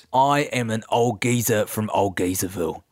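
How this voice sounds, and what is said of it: Old English geezer character voice. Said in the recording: “So you got a mighty interesting voice... Old England”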